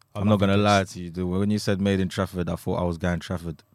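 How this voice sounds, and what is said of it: London accent. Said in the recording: “the London accent”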